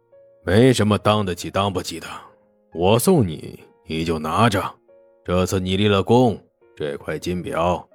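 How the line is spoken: Calm, faint smile. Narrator (Chinese): 黄金荣只是淡淡一笑

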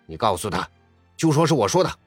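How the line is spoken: Angry scolding. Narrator (Chinese): 发哥似乎动怒了，正宫干部那样对着大哥大训斥说

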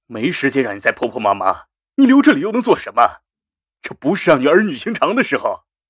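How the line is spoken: Stern, harsh. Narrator (Chinese): 杜仲厉声说着

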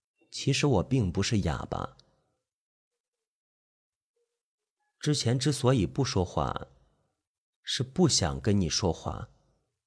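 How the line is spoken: Soft voice. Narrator (Chinese): 轻声说道

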